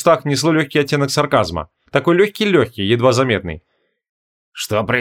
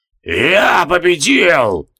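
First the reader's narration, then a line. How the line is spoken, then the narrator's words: Hoarse wheeze. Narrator (Russian): прохрипел Рорк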